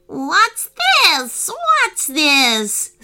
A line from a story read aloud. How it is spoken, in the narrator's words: screeched the monkey